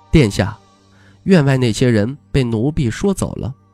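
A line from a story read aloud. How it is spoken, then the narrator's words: Flat, indifferent. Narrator (Chinese): 这青鸟淡淡的说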